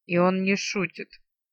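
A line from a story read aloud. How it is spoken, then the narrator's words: Grumbling. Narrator (Russian): проворчала Арсана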